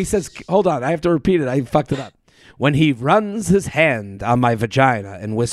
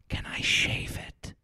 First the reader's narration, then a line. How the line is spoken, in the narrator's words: whispers